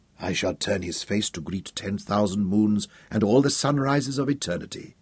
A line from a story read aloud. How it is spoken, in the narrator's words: said softly